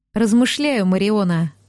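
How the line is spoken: Heavy sigh. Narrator (Russian): тяжело вздохнул Эсташ

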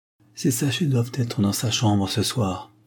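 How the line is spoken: Firm tone. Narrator (French): dit-il d'un ton ferme

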